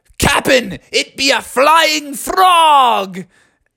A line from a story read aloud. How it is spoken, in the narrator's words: they all yelled